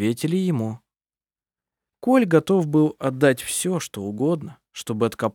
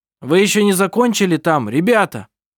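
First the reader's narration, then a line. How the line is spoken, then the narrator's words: Desperate shout. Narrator (Russian): Он в отчаянии крикнул тем, кто был по другую сторону завала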